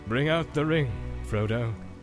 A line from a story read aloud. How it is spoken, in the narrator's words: said Gandalf solemnly